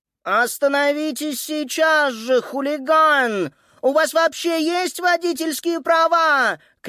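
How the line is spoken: Shout. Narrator (Russian): крикнула

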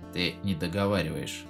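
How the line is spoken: Gloomy, through gritted teeth. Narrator (Russian): мрачно процедил Алрик

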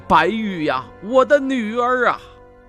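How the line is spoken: Frantic wailing. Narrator (Chinese): 吴宗仁发疯般的嚎叫起来

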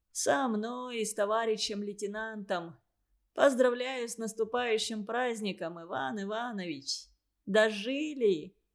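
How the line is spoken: Wounded man groaning. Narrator (Russian): Раненый застонал

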